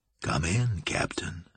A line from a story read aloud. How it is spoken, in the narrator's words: Julian said quietly